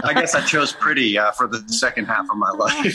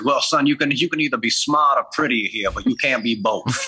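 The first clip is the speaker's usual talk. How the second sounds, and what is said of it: Put-on accent imitating another man. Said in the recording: “the accent”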